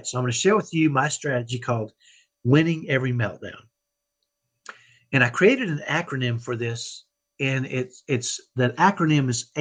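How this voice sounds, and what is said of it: Texan accent. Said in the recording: “I have a Texan accent. I grew up in Dallas, and I have what I call a ghetto Texas accent.”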